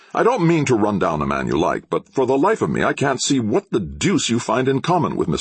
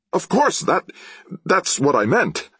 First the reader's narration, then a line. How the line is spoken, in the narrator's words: he laughed